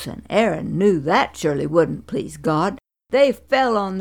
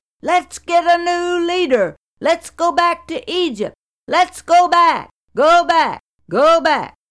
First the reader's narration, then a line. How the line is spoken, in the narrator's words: the discontent and griping got so bad that the people shouted